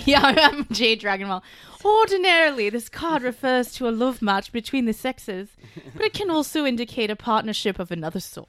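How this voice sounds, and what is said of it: Bad fake medieval accent. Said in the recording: “I'm confused by the accent that you've taken. ... it's my shitty medieval accent”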